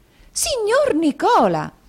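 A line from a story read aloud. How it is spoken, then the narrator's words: Surprised exclamation. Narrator (Italian): esclamò la signorina Lacrivi con un balzo di sorpresa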